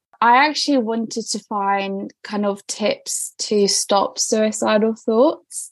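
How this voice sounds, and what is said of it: British English accent. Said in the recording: “I hear a super British accent. I don't hear anything Romanian in this accent”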